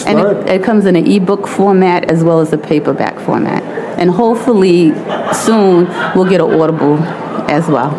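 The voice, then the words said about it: Queens New York accent. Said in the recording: “that Queens accent”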